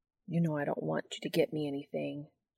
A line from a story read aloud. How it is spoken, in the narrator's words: Sam mumbles, fidgeting in his seat